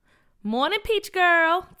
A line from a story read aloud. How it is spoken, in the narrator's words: Tia said in her loud and proud voice